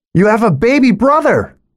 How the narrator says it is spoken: I shout at their vanishing backs

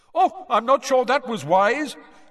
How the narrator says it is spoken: They could hear Bagman shouting gleefully

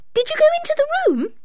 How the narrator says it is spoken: cried Anne

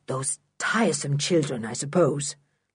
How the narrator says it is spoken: muttered Mr

